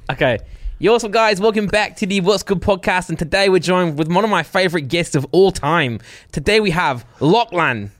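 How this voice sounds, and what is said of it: Imitates guest's accent. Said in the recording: “I want you to do it in our guest's accent”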